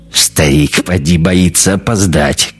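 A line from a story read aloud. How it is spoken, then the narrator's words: Chuckling. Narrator (Russian): косоглазый хохотнул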